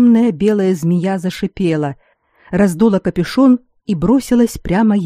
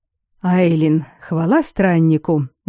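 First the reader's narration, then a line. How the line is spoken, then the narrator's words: Breathless exhale. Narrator (Russian): выдохнул разумник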